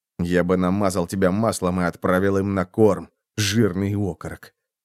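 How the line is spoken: Muttering. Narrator (Russian): пробормотал копьеносец

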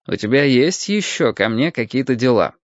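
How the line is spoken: Dry question. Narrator (Russian): сухо спросил Рытвин-старший

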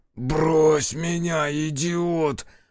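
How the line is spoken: Hoarse wheeze. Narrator (Russian): прохрипел Бучило

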